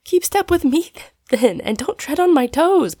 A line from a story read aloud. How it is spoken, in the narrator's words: pleaded Polly